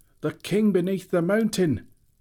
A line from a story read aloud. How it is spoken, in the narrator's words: they shouted